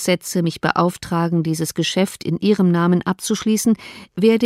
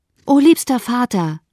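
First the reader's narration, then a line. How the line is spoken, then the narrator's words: Call. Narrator (German): rief sie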